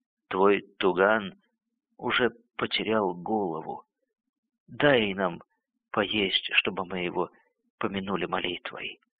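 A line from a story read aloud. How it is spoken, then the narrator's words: Hoarse. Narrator (Russian): Хриплый голос ответил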